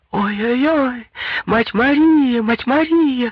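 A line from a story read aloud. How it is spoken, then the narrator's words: Crying out. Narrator (Russian): закричала Елена Александровна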